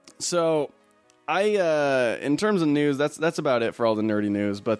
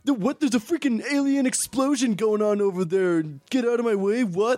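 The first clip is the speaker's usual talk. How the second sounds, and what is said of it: Imitates another person's voice. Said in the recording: “best Mark Wahlberg impression ... That's spot on.”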